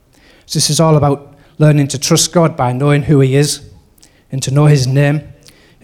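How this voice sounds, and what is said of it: Broad Middlesbrough accent. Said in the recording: “I've got a broad Middlesbrough accent”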